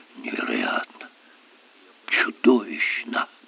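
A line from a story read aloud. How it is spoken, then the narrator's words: Professor's repeated muttering. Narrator (Russian): профессор то и дело бормотал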